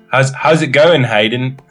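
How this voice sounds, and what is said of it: Put-on Australian accent. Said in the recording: “I'm going to go Australian ... Your accent is actually pretty good.”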